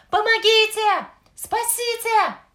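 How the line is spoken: Boy screaming while struggling. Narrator (Russian): кричал мальчик, выбираясь из лап огромного существа

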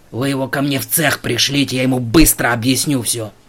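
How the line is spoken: Growled. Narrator (Russian): Прорычал Синицын

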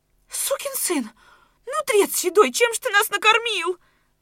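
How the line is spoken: Shrieking then wailing. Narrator (Russian): взвизгнула Аниська, сноха Донецковых, и с порывом заголосила

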